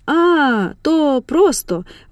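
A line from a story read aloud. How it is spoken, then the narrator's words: Exclamation. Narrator (Ukrainian): вигукнув Аврора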